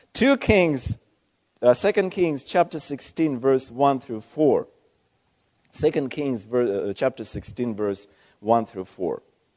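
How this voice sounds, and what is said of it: Speaks with a foreign accent. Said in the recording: “if you don't mind my accent.”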